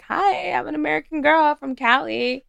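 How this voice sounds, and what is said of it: Valley Girl accent. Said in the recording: “Gave him that good Valley Girl accent.”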